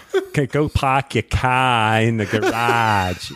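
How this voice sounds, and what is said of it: Put-on Boston accent. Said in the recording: “But that's a Boston accent.”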